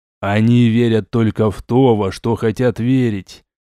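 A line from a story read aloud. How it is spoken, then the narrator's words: Hollow, muffled ghostly voice. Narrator (Russian): глухо произнес призрак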